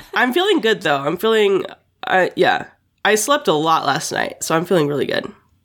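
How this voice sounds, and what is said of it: Sick-sounding voice. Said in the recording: “Still sick. People could probably tell from my voice has sounded sick ... worse, if anything, this week.”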